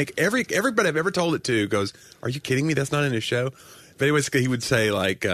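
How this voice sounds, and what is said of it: Usual voice. Nothing is said of it.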